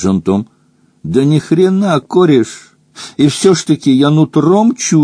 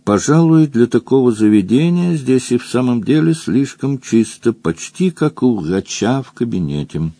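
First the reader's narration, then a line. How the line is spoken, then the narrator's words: Calm. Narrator (Russian): Роза Рык спокойно произнесла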